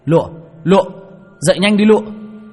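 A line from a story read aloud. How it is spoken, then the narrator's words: Panicked shout. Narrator (Vietnamese): Tôi hoảng hồn, miệng hét lên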